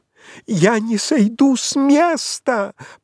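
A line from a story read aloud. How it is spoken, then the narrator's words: Shrill shout. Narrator (Russian): прокричала визгливо Пряхина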